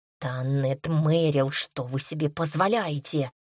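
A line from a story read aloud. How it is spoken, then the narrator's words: Hiss. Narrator (Russian): прошипел Серж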